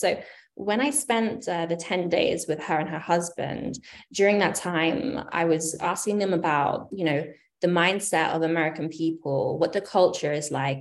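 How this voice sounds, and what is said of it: British accent. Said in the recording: “I am from the UK originally, in case you haven't been able to discern my accent.”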